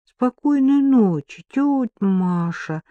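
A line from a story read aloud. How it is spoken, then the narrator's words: Sleepy voice. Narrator (Russian): сонным голосом проговорил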